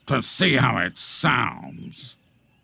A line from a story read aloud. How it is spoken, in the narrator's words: he growled